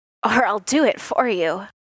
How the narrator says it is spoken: he said, his voice raw and raspy

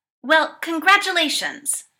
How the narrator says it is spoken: Paul snaps

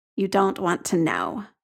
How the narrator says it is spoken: Jamie says grimly

